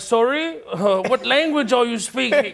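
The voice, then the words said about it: Slight British accent. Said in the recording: “a hint of a British accent”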